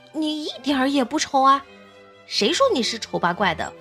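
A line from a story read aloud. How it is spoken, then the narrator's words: Asking. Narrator (Chinese): 兔子们问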